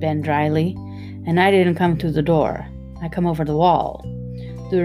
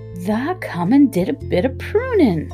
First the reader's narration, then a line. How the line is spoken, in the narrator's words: cried Dickon